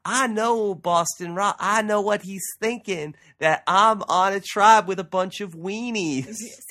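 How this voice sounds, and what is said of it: Weak impression of another person. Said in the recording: “his impression? ... It's a little weak, right? ... Of Russell. It's a little”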